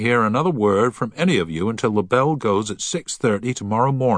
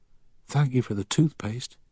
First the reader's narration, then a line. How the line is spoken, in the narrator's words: a voice whisper